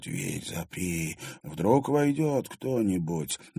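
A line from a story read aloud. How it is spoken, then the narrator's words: Hoarse whisper. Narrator (Russian): кто-то хрипло прошептал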